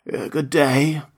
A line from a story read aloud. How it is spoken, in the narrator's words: said the scarecrow in a rather husky voice